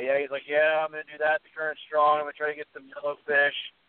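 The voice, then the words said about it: Imitated strong Boston accent. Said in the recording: “I love his accent. ... everything he says is an insane Boston accent”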